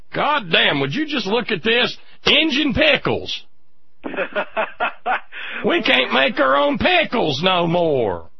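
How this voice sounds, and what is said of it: Put-on hillbilly accent. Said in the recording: “with the hillbilly accent”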